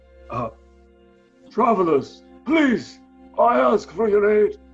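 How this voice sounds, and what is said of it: Heavily accented coughing character voice. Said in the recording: “caught between coughs and a very heavy accent”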